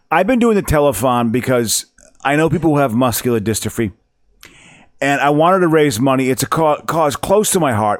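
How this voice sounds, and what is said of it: Imitates another person's voice. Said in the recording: “I think that's what he says to Phil Donahue. That's my impression. ... Sounded kind of convincing, though, didn't it? ... I thought that was a pretty good job of acting.”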